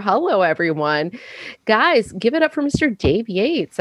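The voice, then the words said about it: Radio announcer style delivery. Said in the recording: “why I sound like a radio”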